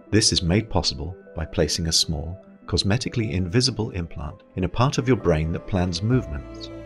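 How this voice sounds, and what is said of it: English accent. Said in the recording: “freaky little futuristic English accent”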